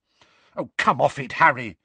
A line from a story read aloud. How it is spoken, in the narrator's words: said Hermione angrily